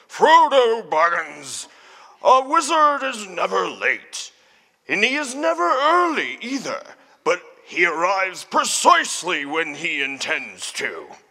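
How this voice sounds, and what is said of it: Imitates another person's voice. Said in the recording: “my best impersonation of Ian McKellen”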